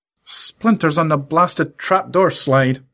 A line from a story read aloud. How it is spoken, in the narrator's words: muttered Lorenzo